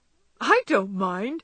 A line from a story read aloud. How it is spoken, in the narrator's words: laughed Laurie